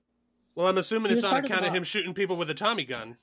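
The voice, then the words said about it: Silly old-timey gangster voice. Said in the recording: “doing a voice over here? ... the whole reason I'm doing that stupid voice ... Some old-timey Bugsy gangster.”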